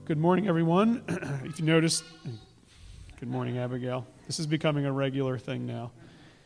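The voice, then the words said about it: Slightly hoarse, breaking voice. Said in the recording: “My voice is a little breaking this morning... now my voice is a little hoarse”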